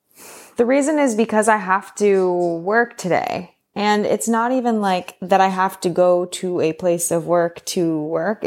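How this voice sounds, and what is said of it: Low, downbeat voice. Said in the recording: “my voice sounds a little bit down”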